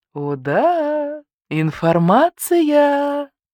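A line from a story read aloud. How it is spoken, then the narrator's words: Drawling. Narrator (Russian): протянула лисичка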